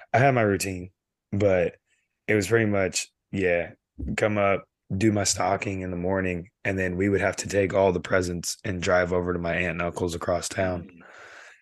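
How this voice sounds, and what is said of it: Hoarse, fading voice. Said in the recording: “Excuse me, losing my voice.”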